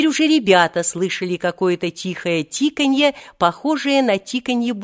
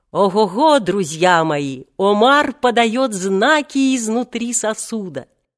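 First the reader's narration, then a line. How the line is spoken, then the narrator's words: Joyful booming laughter. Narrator (Russian): он радостно захохотал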